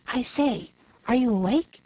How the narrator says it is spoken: a voice whispered

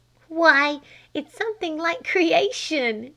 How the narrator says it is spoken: she giggled

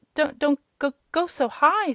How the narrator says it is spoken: stammered the little one tremblingly

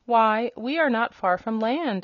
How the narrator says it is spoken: exclaimed the hen

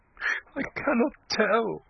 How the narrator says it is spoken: she said desperately through her sobbing

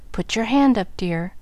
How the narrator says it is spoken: demanded the papa, with another rap of the cane, and such a frown

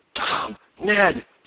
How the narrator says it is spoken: he gasped rather than cried

